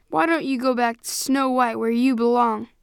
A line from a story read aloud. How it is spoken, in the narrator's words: he snarled at Larry